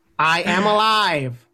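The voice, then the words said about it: Imitates a robot character voice. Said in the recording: “My impersonation of Johnny Five.”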